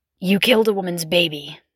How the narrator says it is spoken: he growled, voice muffled by the mask

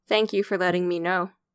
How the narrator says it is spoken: Ashley said

